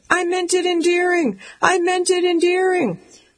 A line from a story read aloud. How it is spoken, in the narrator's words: I'm shouting